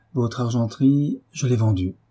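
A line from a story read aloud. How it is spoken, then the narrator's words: Firm voice. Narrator (French): reprit Marie d'une voix ferme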